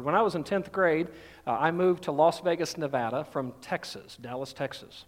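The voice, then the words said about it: Southern Georgia twang. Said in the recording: “I've kind of lost most of that now, I think, or I've got more of a Georgia, you know, twang to me now”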